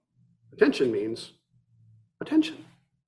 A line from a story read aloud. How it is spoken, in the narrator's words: Ikkyu answered gently